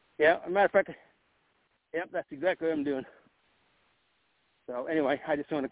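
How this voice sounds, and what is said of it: Slightly out of breath. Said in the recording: “I sound a little out of breath.”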